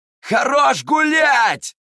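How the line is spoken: Yelling over flute noise. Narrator (Russian): заорал Терций, пытаясь перекричать вой флейты

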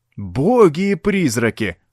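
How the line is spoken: Exclaimed. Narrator (Russian): воскликнул Шулер

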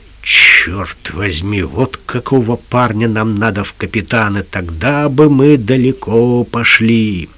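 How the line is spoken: Pirate muttering. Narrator (Russian): Только один из пиратов пробормотал

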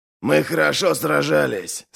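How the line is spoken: Muffled, hollow voice. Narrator (Russian): сказал Ральф, хотя его голос звучал глухо

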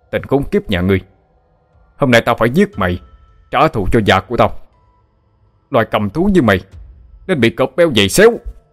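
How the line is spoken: Angry yell. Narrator (Vietnamese): Gặp lại kẻ thù, A Kim hét lên

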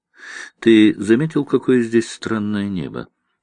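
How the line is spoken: Quiet question. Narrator (Russian): негромко спросила она

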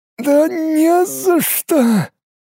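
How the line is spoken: Hoarse wheeze. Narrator (Russian): прохрипел шизоид

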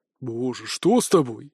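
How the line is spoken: Frightened breathless exhale. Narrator (Russian): испуганно выдохнул парень

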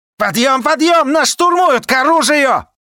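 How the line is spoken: Hysterical yelling. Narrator (Russian): Кто так истерично орал

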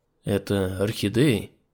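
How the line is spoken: Quiet question. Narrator (Russian): тихо спросил я

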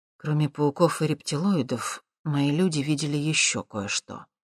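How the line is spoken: Quiet. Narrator (Russian): тихо сообщил Воронин

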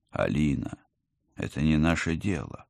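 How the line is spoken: Gentle reminder. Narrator (Russian): попытался мягко напомнить мне Алекс

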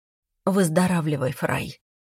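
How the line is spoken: Quiet. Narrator (Russian): сказала я тихо

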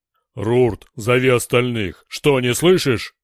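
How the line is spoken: Barked. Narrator (Russian): гаркнул Дор

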